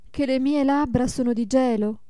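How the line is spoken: Mother's exclamation. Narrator (Italian): esclamò la madre

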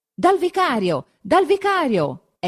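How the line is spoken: Crowd shouting. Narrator (Italian): è il solo grido

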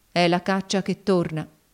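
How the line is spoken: Cold. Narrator (Italian): disse Cassy freddamente

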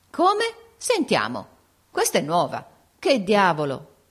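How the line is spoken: Everyone exclaiming together. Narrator (Italian): esclamarono tutti

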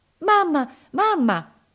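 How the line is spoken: Anxious shout. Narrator (Italian): gridò ansiosa

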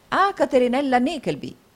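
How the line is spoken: Three voices toasting together. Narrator (Italian): esclamarono gli altri tre

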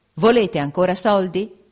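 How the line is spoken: Prince shouting rudely in face. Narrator (Italian): gli gridò sul muso il principe, mettendo da banda l'eccellenza

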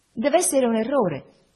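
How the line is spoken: Exclaiming. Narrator (Italian): esclamai

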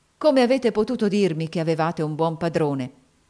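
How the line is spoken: Exclamation. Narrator (Italian): esclamò egli

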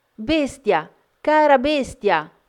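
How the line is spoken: Dismayed, frantic screaming. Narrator (Italian): Belinda, sgomenta, pensando di avergli cagionato la morte, percorse correndo una stanza dopo l'altra, urlando

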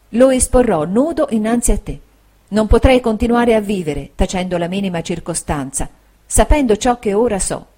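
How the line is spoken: Soft, tender voice. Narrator (Italian): ella disse con voce piana, sommessa e tenera

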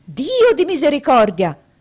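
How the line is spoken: Exclaimed. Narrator (Italian): fu la terza esclamazione del dottore

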